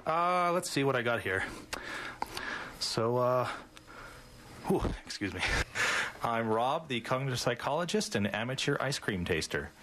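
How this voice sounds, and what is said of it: Breathless, out of breath speech. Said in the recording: “I'm a little out of breath.”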